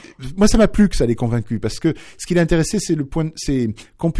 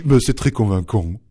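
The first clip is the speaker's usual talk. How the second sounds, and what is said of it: Imitated teenage boy's voice. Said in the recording (French): “je vais imiter son accent adolescent ... avec son ton”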